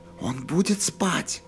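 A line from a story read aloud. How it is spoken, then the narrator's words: Whispered question. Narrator (Russian): шепотом спросил Джейк Келлогана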